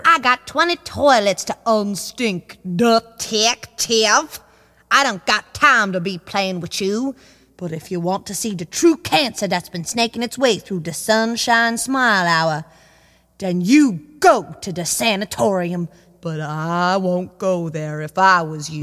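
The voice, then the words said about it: Inconsistent put-on accent. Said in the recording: “Your accent is a bit inconsistent.”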